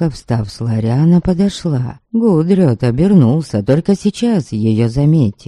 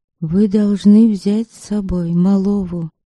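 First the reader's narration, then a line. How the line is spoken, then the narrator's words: Quiet but firm. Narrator (Russian): тихо, но твердо заявила Утушка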